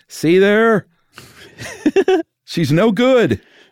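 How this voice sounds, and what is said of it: Dave Thomas impression. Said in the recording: “good Dave Thomas impression”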